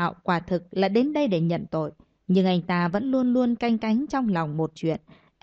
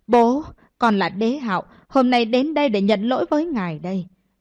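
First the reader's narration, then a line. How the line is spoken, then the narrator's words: Loud kneeling shout. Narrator (Vietnamese): Đế Hạo cất giọng hét lớn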